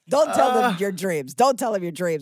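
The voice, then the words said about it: Put-on Slavic-sounding accent. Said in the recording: “How come all your bosses have the same accent ... he had the same Slavic accent.”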